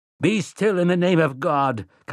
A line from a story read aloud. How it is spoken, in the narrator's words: Callahan cried